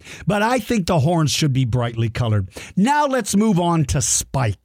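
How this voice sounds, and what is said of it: Usual voice. Nothing is said of it.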